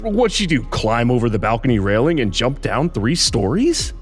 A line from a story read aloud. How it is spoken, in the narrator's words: He scoffed at the absurdity of the idea